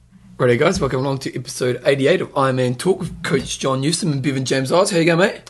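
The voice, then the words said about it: Hoarse, partly lost voice. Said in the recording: “I'm a bit crusty today... I've lost my voice from the wedding because we're singing so much to the music.”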